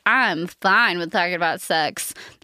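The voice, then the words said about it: Imitates a sexually confident person. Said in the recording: “That's my impression of people who are very comfortable with their sexuality.”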